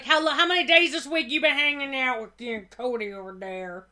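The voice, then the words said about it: Put-on Louisiana accent. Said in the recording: “giving them like a Louisiana accent”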